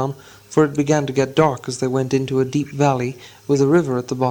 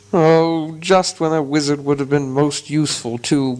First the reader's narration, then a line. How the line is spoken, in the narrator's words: groaned Dori and Nori